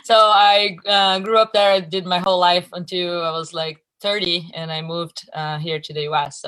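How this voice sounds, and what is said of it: Brazilian accent. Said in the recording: “I am Brazilian. So if you hear an accent, that's why.”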